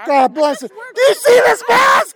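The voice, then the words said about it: Yelling. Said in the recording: “I'm yelling here!”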